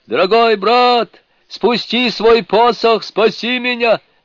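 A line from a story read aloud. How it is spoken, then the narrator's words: Shouted. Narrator (Russian): закричал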